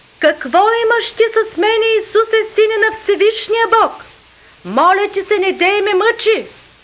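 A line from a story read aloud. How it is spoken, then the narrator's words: Loud cry. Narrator (Bulgarian): извика, рече със силен глас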